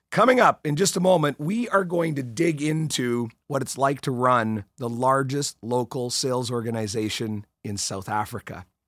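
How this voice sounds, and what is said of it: Voice thick from a cold. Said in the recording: “This is the winter 2019 cold edition. No, it's not some new thing. It's not an impersonation I'm trying to do”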